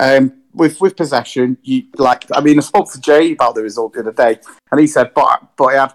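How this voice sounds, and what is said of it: Usual voice. Nothing is said of it.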